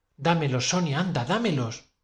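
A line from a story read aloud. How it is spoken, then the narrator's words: Plain. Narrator (Spanish): me dijo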